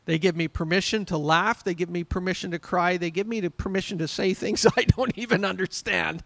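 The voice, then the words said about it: Yelling, worked-up preaching. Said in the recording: “I'm yelling at you this morning, so I'm sorry, but I've just been worked up.”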